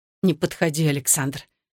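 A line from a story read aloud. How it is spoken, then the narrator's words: Hissed through clenched teeth. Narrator (Russian): стиснув зубы, прошипела она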